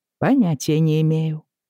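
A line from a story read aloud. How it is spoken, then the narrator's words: Dry reply. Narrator (Russian): сухо ответил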